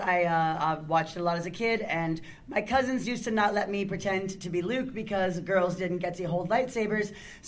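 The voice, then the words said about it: Hoarse, rough worn-out voice. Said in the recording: “my voice is shot by the time we get here ... I usually sound slightly less like a whiskey smoker ... really rough on the throat”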